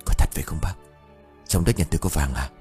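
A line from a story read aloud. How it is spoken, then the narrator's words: Choked whisper. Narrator (Vietnamese): Ông Khảm thì thầm câu nói ban nãy trong hơi thở nghẹn ứ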